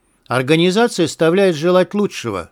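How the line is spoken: Plain. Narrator (Russian): сказал я

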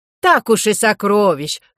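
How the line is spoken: Incredulous chuckle. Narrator (Russian): хохотнул второй голос недоверчиво

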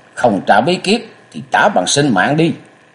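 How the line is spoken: Loud shout. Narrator (Vietnamese): Lê Ức Hưu quát lớn

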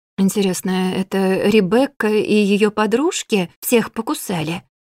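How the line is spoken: Quiet. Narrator (Russian): тихо проговорила я

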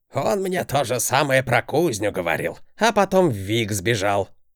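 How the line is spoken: Old man's snort. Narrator (Russian): хмыкнул дед

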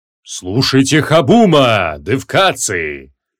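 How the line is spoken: Thundering old giant. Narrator (Russian): прогремел седовласый гигант

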